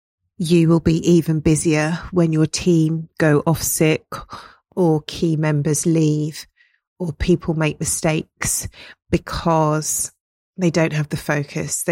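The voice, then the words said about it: Strained voice from a cold. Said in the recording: “my voice is going, I've got a little bit of a cold,”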